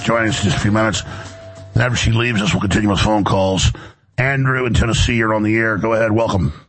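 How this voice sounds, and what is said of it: Hoarse voice from laryngitis. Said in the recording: “laryngitis, I feel great. I just got laryngitis”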